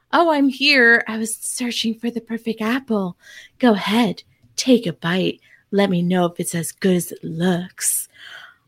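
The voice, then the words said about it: Imitates a character's voice. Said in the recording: “love your impression of Eve ... It's my only impression”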